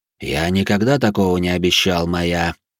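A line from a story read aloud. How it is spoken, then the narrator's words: Calm. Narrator (Russian): спокойно ответил белый дьявол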